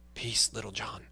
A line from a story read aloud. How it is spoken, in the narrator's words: said Robin in a low voice